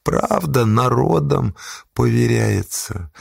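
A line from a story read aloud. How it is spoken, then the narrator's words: Tired. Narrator (Russian): устало продолжил он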